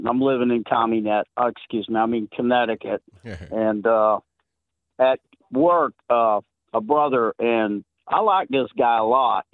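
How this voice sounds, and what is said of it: Southern US accent. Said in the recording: “I have a southern accent”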